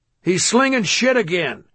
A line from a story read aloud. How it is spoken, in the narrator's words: a guard yelled